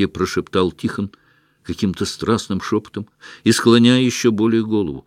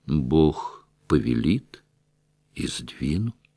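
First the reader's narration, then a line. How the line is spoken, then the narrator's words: Quiet, restrained. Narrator (Russian): тихо и сдержанно произнес Тихон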